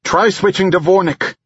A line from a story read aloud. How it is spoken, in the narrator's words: Balthol shouted